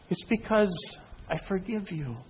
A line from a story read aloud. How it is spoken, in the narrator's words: He smiled and he said quietly